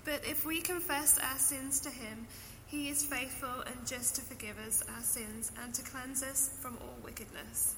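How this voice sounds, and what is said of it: English accent. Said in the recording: “You're on the worship team back in England. I just really want to hear your accent some more.”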